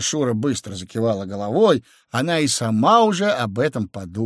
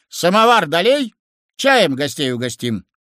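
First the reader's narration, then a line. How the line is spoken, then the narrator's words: Shouting from outside window. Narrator (Russian): уже снаружи, заглянув в окно, крикнул тете Шуре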